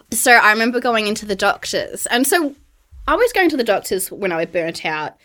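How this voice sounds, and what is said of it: Australian accent. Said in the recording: “get back to my Aussie roots ... we love the Australian accent”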